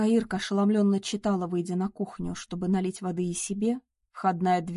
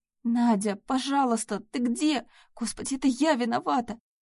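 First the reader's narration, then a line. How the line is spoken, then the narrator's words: Desperate sobbing. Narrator (Russian): Разрыдалась Ирка, в безысходности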